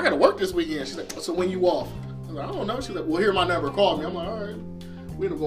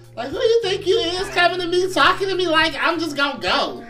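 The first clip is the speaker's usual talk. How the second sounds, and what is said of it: High-pitched, woman-like voice. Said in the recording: “I sound like a woman, ... let me put some bass back. in”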